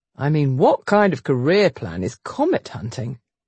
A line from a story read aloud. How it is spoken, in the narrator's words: He scoffed